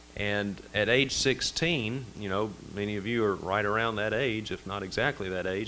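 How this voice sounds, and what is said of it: Slight Mississippi Southern accent. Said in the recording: “You can probably tell I got a little bit of an accent. I'm originally from Mississippi.”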